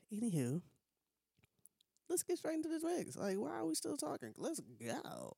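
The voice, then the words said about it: Congested voice. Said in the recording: “Excuse my voice. It's not as presentable as it usually is, but I'm a little congested”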